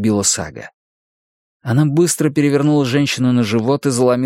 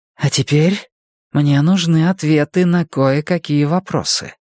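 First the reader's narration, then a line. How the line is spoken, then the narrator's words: Calm announcement. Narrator (Russian): спокойно объявила она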